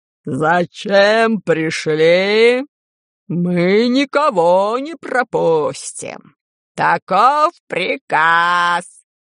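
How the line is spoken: Hoarse wheeze, several voices. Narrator (Russian): Просипели атланты

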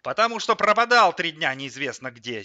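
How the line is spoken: Angry mother. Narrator (Russian): сердито сказала мама

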